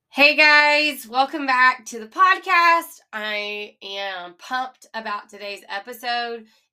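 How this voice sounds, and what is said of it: Nasal, congested voice. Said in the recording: “I sound a little nasally ... a little nasally sound”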